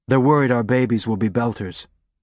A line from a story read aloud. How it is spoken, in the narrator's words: he said